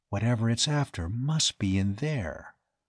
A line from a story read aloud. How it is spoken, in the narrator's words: Dane said softly